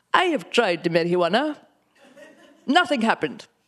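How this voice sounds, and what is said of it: Imitated Indian accent. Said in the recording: “I can only ever talk about my dad with his accent ... I had an Indian accent”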